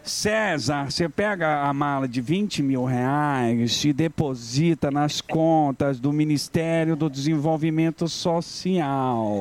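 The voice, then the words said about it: Imitates another person's voice. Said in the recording (Portuguese): “faz com a voz dela”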